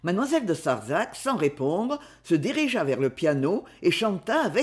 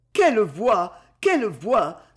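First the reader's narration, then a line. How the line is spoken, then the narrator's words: Tearful exclamation. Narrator (French): s'écria Madame de Rilly en pleurant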